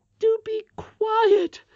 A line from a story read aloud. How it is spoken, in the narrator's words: cried the nurse in a whispered shriek